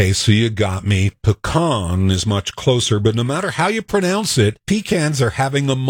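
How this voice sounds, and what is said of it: Usual voice. Nothing is said of it.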